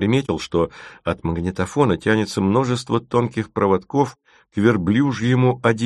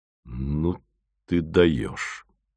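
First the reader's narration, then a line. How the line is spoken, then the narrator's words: Strained, stunned. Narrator (Russian): только и выдавил пораженный Фомин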